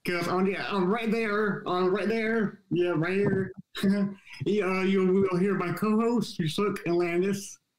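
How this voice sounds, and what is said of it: Voice sounds like a Muppet character. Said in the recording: “my voice sounds like Scooter from the Muppets”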